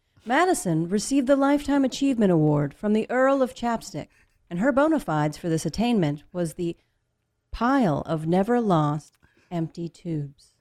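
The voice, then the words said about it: Very serious news announcer voice. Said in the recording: “the very serious news announcer voice”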